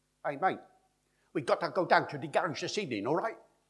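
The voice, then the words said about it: Syllable-timed Cockney, rapid staccato rhythm. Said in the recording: “Cockney, of course, is the traditional accent, and you now hear this syllable-timed Cockney speech ... They speak like this ... Rat-ta-ta-ta-ta-ta-ta-ta-ta.”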